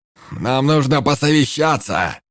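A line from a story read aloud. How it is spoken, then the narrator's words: Shout. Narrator (Russian): крикнул Энгельс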